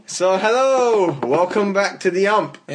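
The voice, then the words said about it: Shouting, loud voice. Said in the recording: “why are you shouting? ... normal indoor voices”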